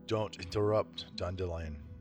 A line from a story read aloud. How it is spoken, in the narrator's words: said Geralt in a calm voice